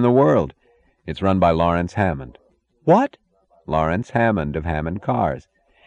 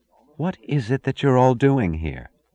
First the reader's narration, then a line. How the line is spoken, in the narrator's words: she asked simply, almost wistfully